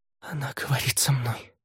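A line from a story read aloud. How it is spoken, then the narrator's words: Breathy, muffled. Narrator (Russian): выдохнула Ромейн, продолжая прятать лицо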